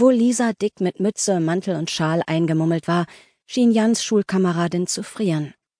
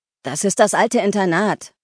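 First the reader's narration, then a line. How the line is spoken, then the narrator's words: Shouting against the wind. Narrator (German): rief Oliver gegen den Wind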